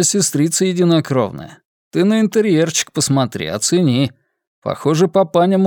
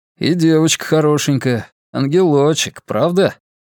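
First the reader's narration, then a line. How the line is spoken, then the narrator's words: Grim snort. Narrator (Russian): мрачно хмыкнул Виталий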